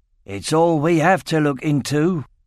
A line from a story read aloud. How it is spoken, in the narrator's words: growled Loring